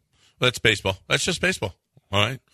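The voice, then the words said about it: Imitation of a sports commentator. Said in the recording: “my bish imitation”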